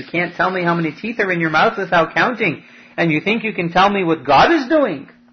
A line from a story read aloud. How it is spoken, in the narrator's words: Rabbi Gamliel laughed at him and said